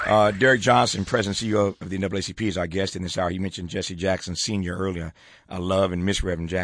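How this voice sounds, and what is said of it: Usual voice. Nothing is said of it.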